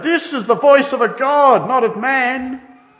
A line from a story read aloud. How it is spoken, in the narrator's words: shouted